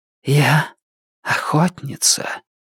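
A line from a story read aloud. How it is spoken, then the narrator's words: Haughty whisper. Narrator (Russian): высокомерно прошептала она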